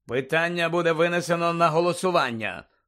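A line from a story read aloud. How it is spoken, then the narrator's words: Cold. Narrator (Ukrainian): холодно продовжував містер Кравч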